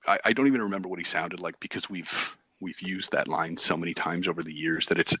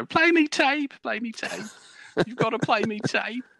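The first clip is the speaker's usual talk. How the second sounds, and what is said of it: Poor impression of a schoolmate's accent. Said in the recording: “I'm doing a horrible impression of him. ... I doubt his accent was even remotely close to that.”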